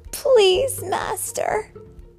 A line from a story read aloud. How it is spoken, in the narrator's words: pleaded Oliver